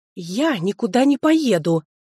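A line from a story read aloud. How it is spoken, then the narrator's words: Hissing. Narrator (Russian): Зашипела Алфина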